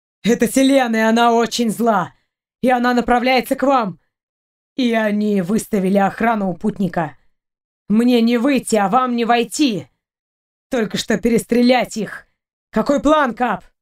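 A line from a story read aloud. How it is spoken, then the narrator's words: Growling. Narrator (Russian): Сапер зарычал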